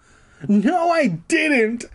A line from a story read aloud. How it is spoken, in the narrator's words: I shouted angrily